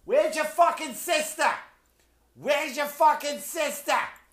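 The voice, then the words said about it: Yelling in South Boston accent. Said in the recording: “Boston mothers yelling at their children in that oh-so-sexy accent, oh-so-attractive voice that they have in South Boston”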